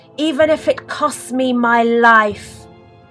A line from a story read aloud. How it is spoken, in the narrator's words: she cried